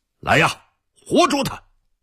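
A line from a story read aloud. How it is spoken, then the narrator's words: Loud shout. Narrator (Chinese): 海都 大声叫道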